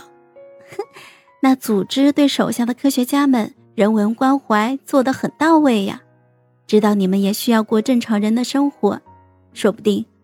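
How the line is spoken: Light laugh. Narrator (Chinese): 孟婉婉轻笑

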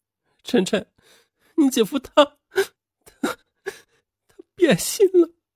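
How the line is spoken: Bursting into tears. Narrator (Chinese): 邓欣然突然哇的一声大哭起来

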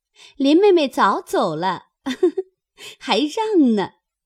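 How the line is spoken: Group laughing. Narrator (Chinese): 众人笑说

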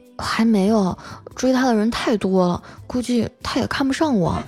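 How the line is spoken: Quiet, timid. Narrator (Chinese): 我表弟小声的说

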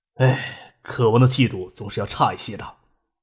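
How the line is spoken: Slight sigh. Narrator (Chinese): 孙尚义微微叹了一口气，说道

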